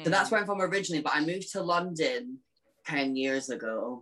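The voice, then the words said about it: Unusual, hard-to-place accent. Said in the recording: “I have a really weird accent ... It's bizarre”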